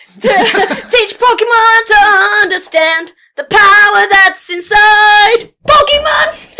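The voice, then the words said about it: Off-key singing. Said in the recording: “The tune is so off right now... My voice is not great”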